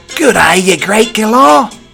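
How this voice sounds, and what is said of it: Put-on Australian accent. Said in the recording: “I don't think I could keep up the Aussie accent for an entire show”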